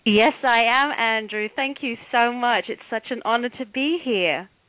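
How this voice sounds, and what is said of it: Bronx accent. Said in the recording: “I see you brought your Bronx accent with you. ... it's the one I'm stuck with”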